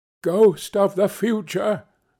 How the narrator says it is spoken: he exclaimed

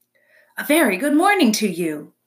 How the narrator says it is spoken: the robot's friendly voice boomed over the water

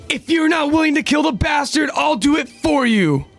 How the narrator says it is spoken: Rod yells out to Uri

